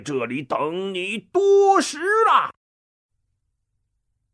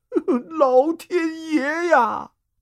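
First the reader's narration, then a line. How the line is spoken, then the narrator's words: Crying. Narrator (Chinese): 哭鼻子绝技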